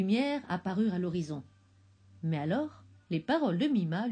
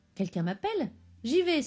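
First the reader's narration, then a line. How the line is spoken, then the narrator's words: Hopeful exclamation. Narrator (French): s'exclama Tinkiri, reprenant espoir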